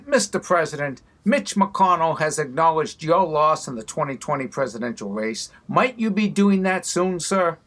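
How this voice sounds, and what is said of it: Boston accent. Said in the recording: “Jimmy Tingle with the Boston accent.”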